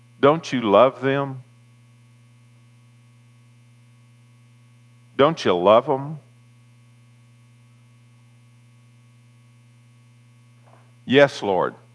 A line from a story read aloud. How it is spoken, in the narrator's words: Jesus will whisper in that still small voice